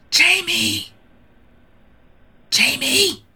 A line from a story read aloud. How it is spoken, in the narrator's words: he doesn't shout but he loudly whispers